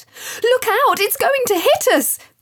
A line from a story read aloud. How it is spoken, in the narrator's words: cried out loud while ducking low